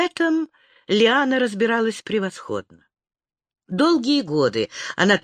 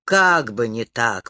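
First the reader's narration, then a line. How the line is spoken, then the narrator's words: Snorted. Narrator (Russian): фыркнул Роган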